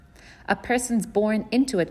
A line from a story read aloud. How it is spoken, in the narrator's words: grandfather boomed